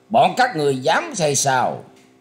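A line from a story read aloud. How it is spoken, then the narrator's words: Cold laugh then shout. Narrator (Vietnamese): Thập thất hoàng tử cất giọng cười lạnh lùng, quát lên rằng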